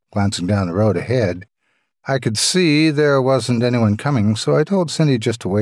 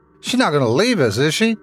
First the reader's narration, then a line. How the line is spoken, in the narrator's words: Tommy shouted